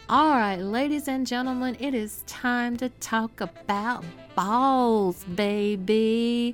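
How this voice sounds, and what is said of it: Put-on Southern US accent. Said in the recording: “That was my southern accent.”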